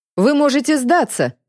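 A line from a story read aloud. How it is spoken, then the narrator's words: Smug mocking shout. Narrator (Russian): закричал полковник с самодовольной издевательской ухмылкой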